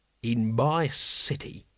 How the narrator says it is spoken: he growled

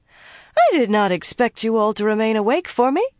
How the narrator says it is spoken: she said brightly

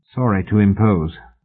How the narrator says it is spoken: Mallory muttered

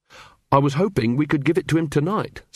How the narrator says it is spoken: said Carrot

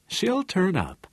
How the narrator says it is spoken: Harmon said in his easy, friendly voice

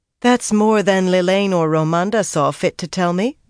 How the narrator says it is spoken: Egwene said just as dryly

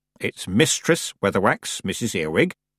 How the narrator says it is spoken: said Granny

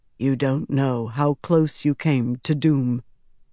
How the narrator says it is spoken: Rand said softly

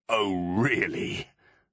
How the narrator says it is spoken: said Trouble, chuckling unexpectedly

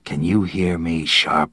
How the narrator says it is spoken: a voice rasped close to his ear

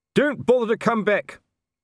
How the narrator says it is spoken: Colon shouted after them

